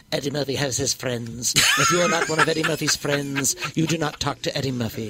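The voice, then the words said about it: Imitates another person's voice. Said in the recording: “That's a perfect impression. ... That is a perfect impression”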